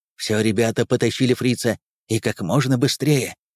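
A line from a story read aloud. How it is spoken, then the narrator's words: Whispered order. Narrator (Russian): приказал шепотом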